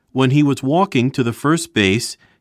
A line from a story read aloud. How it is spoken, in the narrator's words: he cried out in English